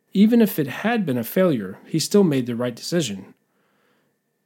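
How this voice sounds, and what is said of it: Usual voice. Nothing is said of it.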